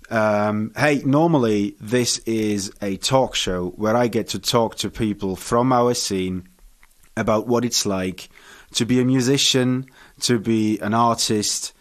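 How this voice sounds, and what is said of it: Welsh-Bavarian accented English. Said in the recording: “I am half Welsh and half Bavarian. That's where the awkward and funny accent comes from”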